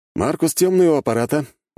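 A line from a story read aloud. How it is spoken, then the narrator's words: Cheerful voice. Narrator (Russian): бодрым голосом заговорил я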